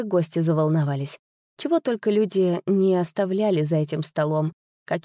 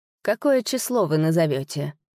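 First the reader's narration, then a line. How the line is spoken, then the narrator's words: Lazy question. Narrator (Russian): лениво спросил Скьяри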